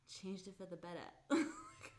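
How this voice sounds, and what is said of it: Put-on Boston accent. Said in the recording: “just like from Boston all of a sudden ... that is not our accent”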